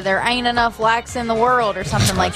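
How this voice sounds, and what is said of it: Imitates another person's voice. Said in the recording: “very good impression”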